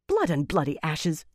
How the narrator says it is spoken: Elaine snapped

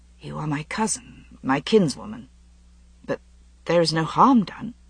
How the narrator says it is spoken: said, and his voice was shaking

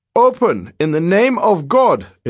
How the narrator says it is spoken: thundered

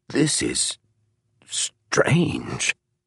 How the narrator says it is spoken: he said in a choked voice

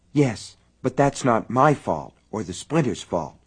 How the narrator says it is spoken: Sally muttered

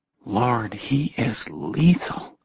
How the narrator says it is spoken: Jessie murmured

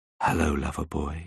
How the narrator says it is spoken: whispered in my ear

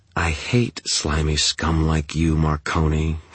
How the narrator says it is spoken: she purred

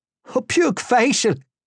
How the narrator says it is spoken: exclaimed

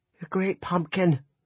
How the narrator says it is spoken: Janelle cried

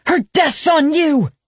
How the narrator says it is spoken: Janice shouts

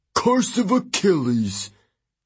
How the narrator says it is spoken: Hudson snorted

